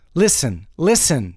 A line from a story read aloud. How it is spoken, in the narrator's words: shouted Peg